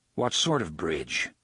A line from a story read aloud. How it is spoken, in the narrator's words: the gunslinger asked